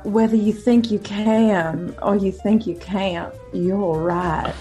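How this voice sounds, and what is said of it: Put-on Southern accent. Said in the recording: “in a Southern accent”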